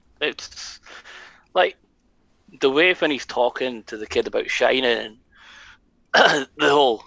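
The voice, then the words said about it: Voice cracking, going hoarse. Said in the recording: “sorry, I'm losing my voice there.”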